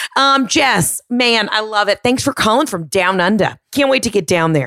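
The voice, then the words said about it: Put-on Australian accent, questioning intonation. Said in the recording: “Aussie accent ... make everything a question ... aggressively attacked you with an Australian accent”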